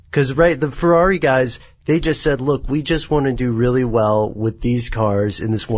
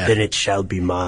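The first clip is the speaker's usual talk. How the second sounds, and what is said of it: Imitates a film villain's voice. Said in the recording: “my cut rate, Wrath of Khan impersonation”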